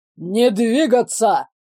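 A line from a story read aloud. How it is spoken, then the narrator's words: Officer barking. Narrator (Russian): рявкнул какой-то офицер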